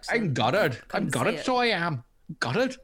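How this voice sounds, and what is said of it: Put-on Northern Irish accent. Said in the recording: “he's from Northern Ireland. ... I can't do a Northern Irish accent.”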